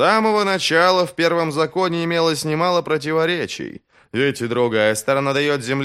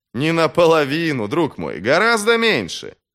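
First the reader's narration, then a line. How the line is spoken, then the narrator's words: Laughing. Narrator (Russian): Бояз засмеялся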